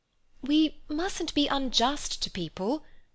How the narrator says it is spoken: faltered Lucy

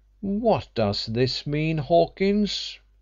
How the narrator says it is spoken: he exclaimed in a tone of disapproval

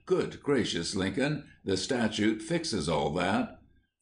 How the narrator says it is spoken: Brown exclaimed

